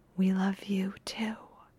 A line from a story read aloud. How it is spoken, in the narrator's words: whispers